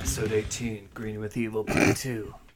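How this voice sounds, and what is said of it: Evil Green Ranger voice impression. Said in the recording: “This is my Green Ranger voice. ... That's like literally what Jason David Frank is doing. ... His evil voice is so funny.”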